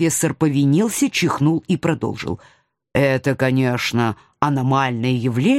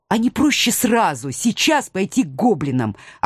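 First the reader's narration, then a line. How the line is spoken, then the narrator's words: Angry interruption. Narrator (Russian): оборвала профессора я, сердито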